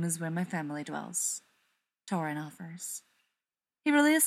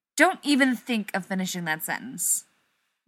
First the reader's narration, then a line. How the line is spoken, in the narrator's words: Rodney snaps